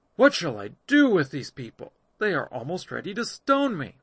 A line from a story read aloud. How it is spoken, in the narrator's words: Moses cried to Yahweh, saying